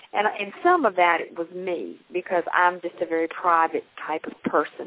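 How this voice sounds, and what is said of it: Southern American accent. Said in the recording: “You come from the South. You can tell by your accent.”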